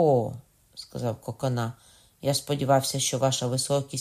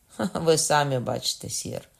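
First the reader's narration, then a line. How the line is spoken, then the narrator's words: Feigned laugh. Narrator (Ukrainian): вдавно засміявся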